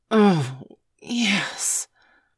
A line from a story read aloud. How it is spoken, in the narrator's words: hissed